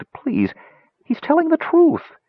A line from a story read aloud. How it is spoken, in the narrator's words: Tass begged